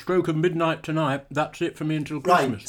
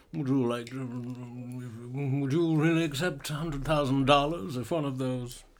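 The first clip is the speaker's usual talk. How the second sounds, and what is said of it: Imitates another person's voice. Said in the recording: “That's quite a good impression of Orson Welles, mate.”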